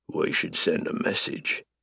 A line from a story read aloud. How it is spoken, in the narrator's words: I murmur